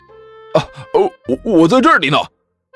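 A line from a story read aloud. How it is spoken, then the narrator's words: Loud, joyful, relieved reply. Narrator (Chinese): 武坚刚才种种的不安和彷徨完全消失不见，脸上带着无比灿烂的笑容，大声回应道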